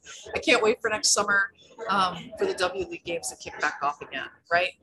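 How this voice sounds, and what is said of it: Slightly cracky, strained voice. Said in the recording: “I do a lot of talking at the conventions. My voice is a little cracky.”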